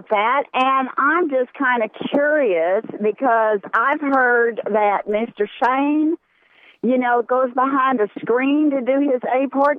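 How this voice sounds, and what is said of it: Southern American accent, Georgia. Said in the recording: “are you from Texas? ... No, I'm from Georgia. ... Georgia, okay. I just love that accent.”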